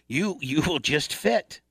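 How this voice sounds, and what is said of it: Put-on Asian accent. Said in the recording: “she was an Asian woman ... my Asian impersonation will be probably offensive”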